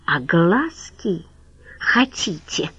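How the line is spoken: Close-up hiss. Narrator (Russian): прошипел Хохлов в лицо орлицы

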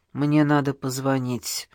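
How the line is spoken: Through gritted teeth. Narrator (Russian): сказал Иван сквозь зубы

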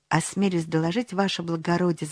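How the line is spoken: Respectful pleading tone. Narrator (Russian): заговорил боцман самым почтительным тоном, полным мольбы

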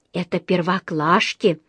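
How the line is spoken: Whispered. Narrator (Russian): прошептала Джуди

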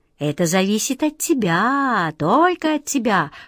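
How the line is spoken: Insinuating, ingratiating. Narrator (Russian): вкрадчиво проговорил король

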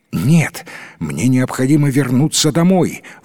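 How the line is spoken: Prince's exclamation. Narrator (Russian): воскликнул принц

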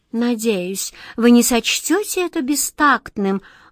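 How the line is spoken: Sighing. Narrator (Russian): вздохнул кот Васька

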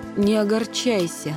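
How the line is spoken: Sigh. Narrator (Russian): Она вздохнула еще раз

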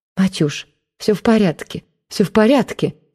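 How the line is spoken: Pale aunt muttering. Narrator (Russian): забормотала тетушка, побледнев

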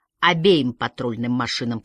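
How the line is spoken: Grumble. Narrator (Russian): пробурчал прыщавый

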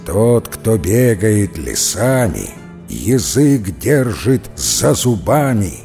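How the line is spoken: Muttering through teeth. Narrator (Russian): сквозь зубы бормотать

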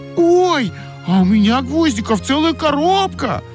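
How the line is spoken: Shouting excitedly. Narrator (Russian): закричала Ойка

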